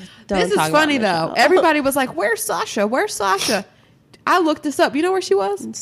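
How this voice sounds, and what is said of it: Usual voice. Nothing is said of it.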